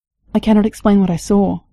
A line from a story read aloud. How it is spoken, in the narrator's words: she said